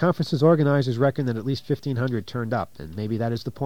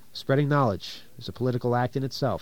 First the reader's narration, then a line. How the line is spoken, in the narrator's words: says Ed